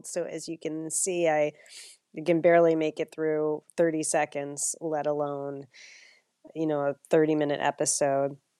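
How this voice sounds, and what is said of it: Sick, cold-affected voice. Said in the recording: “I'm really sick. I think you can hear it from my voice... really horrible cold”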